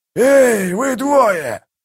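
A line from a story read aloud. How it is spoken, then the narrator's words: Growling shout. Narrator (Russian): зарычал Калор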